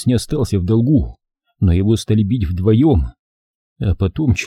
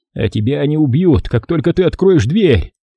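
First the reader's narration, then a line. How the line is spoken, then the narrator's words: Panicked scream. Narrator (Russian): Джимми завопил, когда один из мужчин ударил отца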